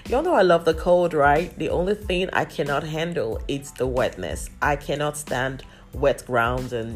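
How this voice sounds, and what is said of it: Congested, stuffy-nosed voice. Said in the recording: “I have been under the weather... you can hear from my voice. My nose is quite stuffy.”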